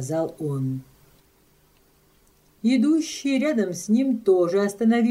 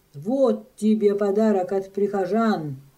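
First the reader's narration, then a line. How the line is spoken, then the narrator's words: Exclaiming. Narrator (Russian): воскликнул он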